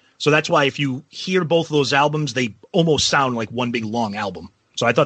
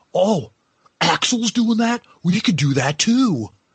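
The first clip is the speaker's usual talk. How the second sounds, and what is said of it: Imitates another person's voice. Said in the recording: “That's not a bad impression.”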